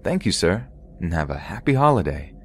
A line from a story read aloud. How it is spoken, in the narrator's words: saying in my bubbly voice